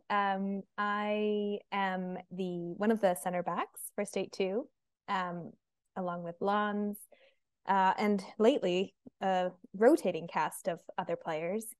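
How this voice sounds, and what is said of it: Noticeable non-local accent. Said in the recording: “Given your accent, people might be able to figure out why.”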